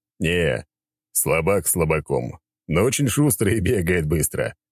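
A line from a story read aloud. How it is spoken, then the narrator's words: Chuckling reply. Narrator (Russian): хохотнул в ответ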